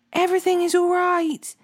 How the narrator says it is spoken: Then Ahimaaz cried out to the king

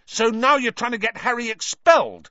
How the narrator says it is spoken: said Ron furiously

